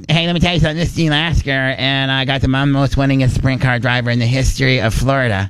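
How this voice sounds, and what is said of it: Over-the-top imitation of another person's voice. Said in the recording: “my best impersonation is Gene Lasker ... it doesn't really sound like Gene ... I just make it so over the top”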